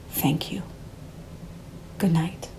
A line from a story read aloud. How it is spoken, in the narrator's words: Alberto whispering